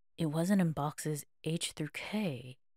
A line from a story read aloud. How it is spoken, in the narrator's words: muttered